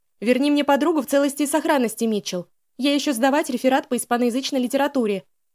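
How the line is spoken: Shout after departing listeners. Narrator (Russian): крикнула нам вслед Лиз

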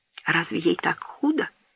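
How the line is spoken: Barely audible whisper. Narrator (Russian): едва слышно прошептал Этьен

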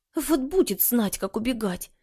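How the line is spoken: Muttering. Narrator (Russian): бормотала Маша

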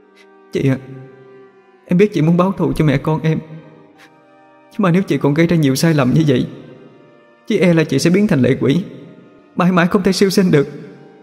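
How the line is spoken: Tearful, about to cry. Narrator (Vietnamese): Chi mếu máo nói

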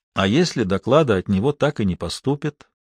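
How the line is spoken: Barely audible question. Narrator (Russian): чуть слышно спросил Рунштадт

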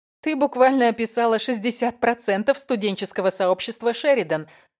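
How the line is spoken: Laughing. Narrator (Russian): засмеялась я

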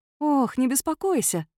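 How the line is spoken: Cooing. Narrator (Russian): проворковала

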